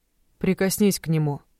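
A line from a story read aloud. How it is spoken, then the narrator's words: Calm. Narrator (Russian): спокойно сказал Тристан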